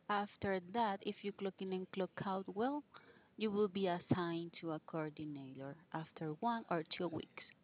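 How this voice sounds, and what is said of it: Very strong accent. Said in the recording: “you have a very strong accent”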